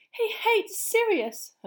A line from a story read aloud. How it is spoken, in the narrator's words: Hermione said desperately